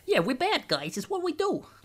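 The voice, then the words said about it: Put-on New York Italian accent. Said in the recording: “New York Italian”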